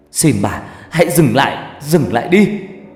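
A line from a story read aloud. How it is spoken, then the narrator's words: Tearful scream of pain. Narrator (Vietnamese): đau đến mức tôi phải gào lên trong nước mắt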